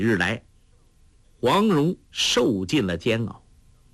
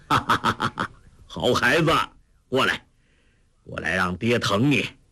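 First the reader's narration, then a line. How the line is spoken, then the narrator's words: Joyful hearty laughter. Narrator (Chinese): 黄药师见女儿无恙，大喜之下，痛恨郭靖之心全消，哈哈大笑说道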